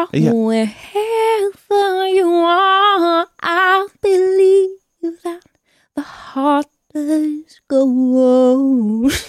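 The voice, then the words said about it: Sings imitating a famous singer's voice. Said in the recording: “You sang like a B-side ... work on my Celine Dion impression”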